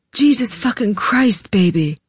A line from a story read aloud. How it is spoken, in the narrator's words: he murmured